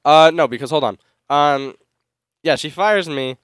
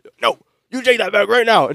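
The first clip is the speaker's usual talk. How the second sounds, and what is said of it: Imitates another person's voice. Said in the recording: “doing a Hulk Hogan voice”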